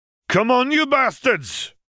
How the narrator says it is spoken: Charles roared, not dissimilarly to how Moody would often address them

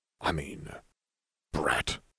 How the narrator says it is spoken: Salazar muttered

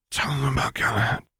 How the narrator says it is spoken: whispered Remus in a single burst of breath

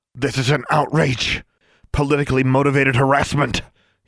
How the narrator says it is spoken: he bellowed

